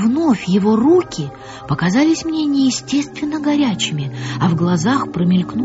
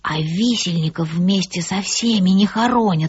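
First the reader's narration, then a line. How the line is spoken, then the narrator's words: Quiet reply. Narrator (Russian): ответил негромко Натан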